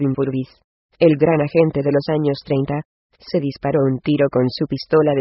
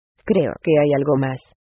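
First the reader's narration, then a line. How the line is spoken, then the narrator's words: Sad murmur. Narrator (Spanish): murmuró entristecida Lucky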